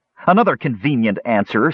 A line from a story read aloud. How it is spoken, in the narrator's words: snarled the angry elf